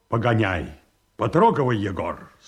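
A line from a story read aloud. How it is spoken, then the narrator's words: Curt, clipped. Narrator (Russian): сказал Павел Антонович отрывисто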